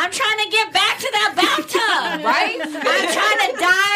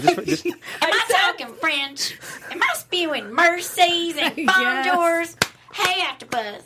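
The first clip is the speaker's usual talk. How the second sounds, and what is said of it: Imitates another person's voice. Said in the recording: “Can you still do the voice? ... did Ross Perot in 2019 ... That's a performance.”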